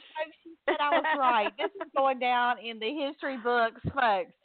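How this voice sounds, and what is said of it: Southern American accent. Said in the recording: “I may talk like a southerner”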